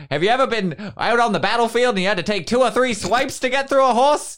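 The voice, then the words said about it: Old-timey 1930s salesman voice. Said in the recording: “I don't know why he talks like he's in the 1930s, but I assume that's as far back as I can do accents.”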